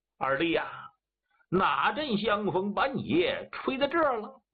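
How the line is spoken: Hearty laughter. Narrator (Chinese): 李廷然是哈哈大笑

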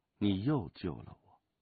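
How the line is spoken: Sigh. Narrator (Chinese): 武清微叹了口气

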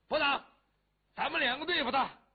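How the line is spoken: Shouted. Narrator (Chinese): 谢英登喊了一声

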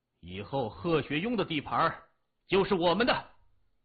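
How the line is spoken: Loud. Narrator (Chinese): 谢文东……大声说

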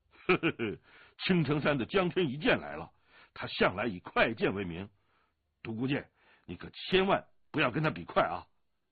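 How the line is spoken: Laughing. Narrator (Chinese): 降龙笑道

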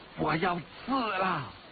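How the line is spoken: Loud shout. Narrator (Chinese): 黑衣人大声叫道

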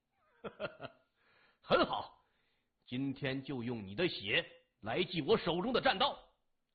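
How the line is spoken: Wild laugh, nonchalant. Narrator (Chinese): 表情若无其事，狂笑一声说

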